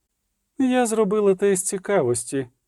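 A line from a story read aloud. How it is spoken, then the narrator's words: Sorceress, sweet melodious voice. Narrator (Ukrainian): сказала неочікувано милим і мелодійним голосом чародійка з Нільфгарду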